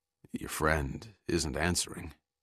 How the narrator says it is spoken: After a pause, McCurdy said quietly

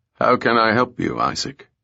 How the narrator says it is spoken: Ebenezer asked stiffly

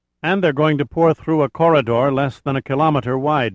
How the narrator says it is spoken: Nichols said grimly

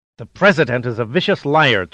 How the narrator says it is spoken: Tsuboi hissed suddenly

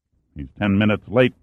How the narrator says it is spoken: Pitt grunted

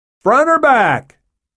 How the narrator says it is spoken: shouted in the pilot's window

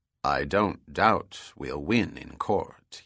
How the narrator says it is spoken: he said quietly

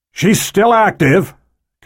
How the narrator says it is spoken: Cabrillo shouted

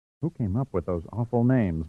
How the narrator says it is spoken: murmured Stacy

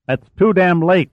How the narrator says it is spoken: Mitchell snapped

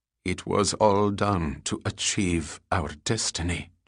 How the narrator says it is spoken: Jelik replied quietly

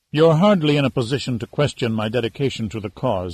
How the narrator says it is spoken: Amaru said coldly

